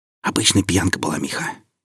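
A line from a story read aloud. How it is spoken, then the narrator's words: Whispered reply. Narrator (Russian): прошептал в ответ Алексей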